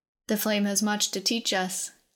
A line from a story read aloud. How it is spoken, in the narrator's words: Keelan said